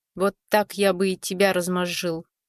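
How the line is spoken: Growled. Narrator (Russian): хозяин оружия рыкнул, как бы говоря

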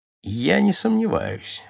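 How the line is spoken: Dry mocking reply. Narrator (Russian): ответил сухо насмешник

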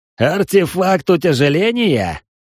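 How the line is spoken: Skeptical snort. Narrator (Russian): хмыкнул Десмонд

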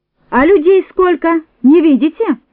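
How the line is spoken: Yelling. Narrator (Russian): заорала Нонна

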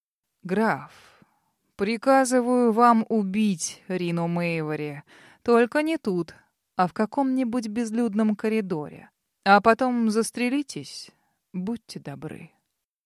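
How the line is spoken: Peculiar low voice, wry smile. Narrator (Russian): вдруг криво улыбнувшись, сощурил глаза и проговорил каким-то особым низким голосом

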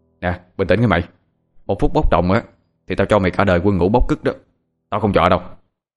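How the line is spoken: Stern warning tone. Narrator (Vietnamese): Thằng Hoàng cũng sợ thằng Bảo đang nóng sẽ làm chuyện không kiềm chế, cho nên gằn giọng nói

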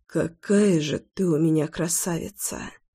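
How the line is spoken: Whisper. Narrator (Russian): прошептал я

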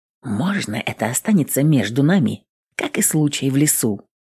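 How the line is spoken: Whisper. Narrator (Russian): прошептал

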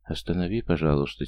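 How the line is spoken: Quiet whisper. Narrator (Russian): тихо прошептала Дуня

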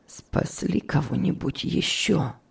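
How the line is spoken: Hoarse question. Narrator (Russian): спросил он охрипшим голосом

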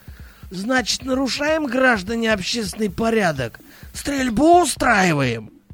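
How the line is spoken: Hoarse wheeze. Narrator (Russian): просипел Рукшин

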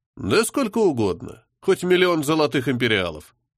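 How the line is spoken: Cold smiling voice. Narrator (Russian): холодно улыбнулся

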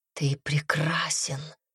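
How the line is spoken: Whisper. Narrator (Russian): прошептала Темпест

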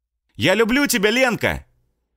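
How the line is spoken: Sudden loud shout. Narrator (Russian): Неожиданно громко выкрикнул Влад

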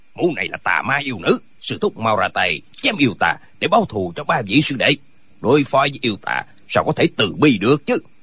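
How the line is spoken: Angry. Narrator (Vietnamese): Tân Quốc Lương tức giận nói

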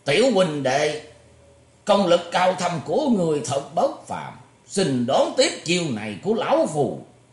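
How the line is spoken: Old man's hoarse throaty laugh. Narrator (Vietnamese): lão ta cười khàn khàn trong cổ nói

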